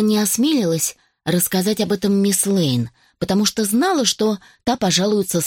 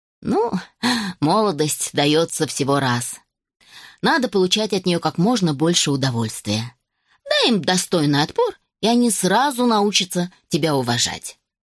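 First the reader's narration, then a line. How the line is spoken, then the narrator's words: Laughing declaration. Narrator (Russian): рассмеялась и заявила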